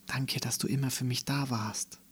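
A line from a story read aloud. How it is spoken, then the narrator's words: Murmured into ear. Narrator (German): raunte sie in sein Ohr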